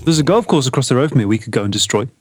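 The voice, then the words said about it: Black Country English accent. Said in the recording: “my generic Black Country accent”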